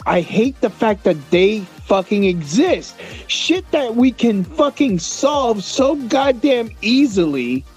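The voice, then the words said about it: Upset screaming. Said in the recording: “Why am I getting so upset? Why am I screaming?”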